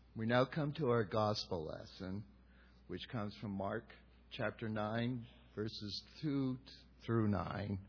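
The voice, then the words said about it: Strained, worn-out voice. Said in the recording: “my voice is a little blown out from the choir”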